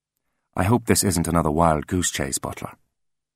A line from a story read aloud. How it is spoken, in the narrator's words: he said, his voice soft and clipped